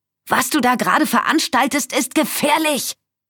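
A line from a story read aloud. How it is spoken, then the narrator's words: Shouted. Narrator (German): schrie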